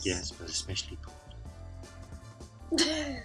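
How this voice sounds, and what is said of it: Put-on sexy voice. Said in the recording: “That was my sexy voice. ... That was your sexy voice.”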